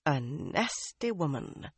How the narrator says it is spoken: Min murmured

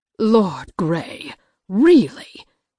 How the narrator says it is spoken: Mama scoffed

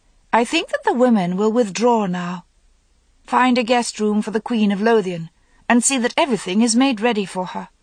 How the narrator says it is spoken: she said coolly

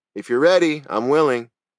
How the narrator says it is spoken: Perez replied, and sniffed loudly

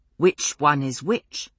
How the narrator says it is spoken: he asked

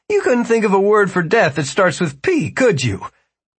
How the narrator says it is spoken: Jimmy laughed as well

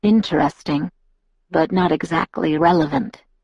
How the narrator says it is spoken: he murmured after a moment

